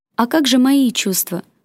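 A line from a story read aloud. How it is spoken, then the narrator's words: Stunned but pleased whisper. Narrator (Russian): ошарашенно прошептала она, хотя ей было очень приятно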